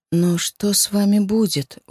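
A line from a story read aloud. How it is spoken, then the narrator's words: Sudden dejected question. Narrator (Russian): вдруг спросила упавшим голосом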